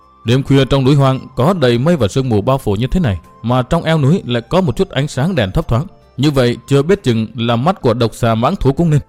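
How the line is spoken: Muttering. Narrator (Vietnamese): Thanh Tòng lẩm bẩm nói

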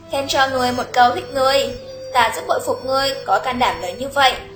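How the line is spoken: Smiling. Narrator (Vietnamese): tên phi tử kia mỉm cười nói

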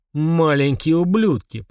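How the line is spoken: Spoken through gritted teeth. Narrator (Russian): процедил Фрундорог

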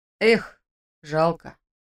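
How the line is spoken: Sighed. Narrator (Russian): вздохнул Женя

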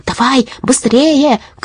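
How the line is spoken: Shouting. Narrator (Russian): крикнула жаба

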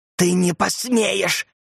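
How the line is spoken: Hiss. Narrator (Russian): прошипела Урсула

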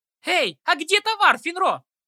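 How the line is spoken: Yelling. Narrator (Russian): заорала Ситси

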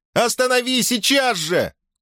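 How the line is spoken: Shout. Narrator (Russian): крикнула она

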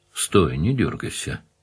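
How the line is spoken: Quiet command. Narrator (Russian): тихо приказал Данил

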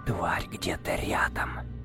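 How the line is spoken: Whispered. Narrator (Russian): почему-то шепотом сообщил он Араму

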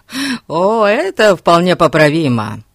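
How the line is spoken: Laughing. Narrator (Russian): Засмеялся Фати

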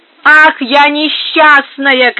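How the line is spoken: Shout. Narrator (Russian): кричала она

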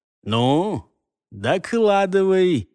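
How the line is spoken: Gloomy mumble. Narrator (Russian): мрачно пробубнил ему черноволосый кумир

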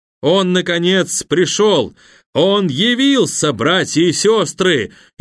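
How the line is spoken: Sorcerer's frantic scream. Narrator (Russian): истошно кричал во тьме колдун, заглушая вопли перепуганных людей

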